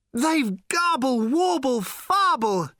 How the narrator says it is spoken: shouted Slarty Bartfast in his thin, tremulous voice

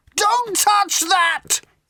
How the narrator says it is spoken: yelled Ford

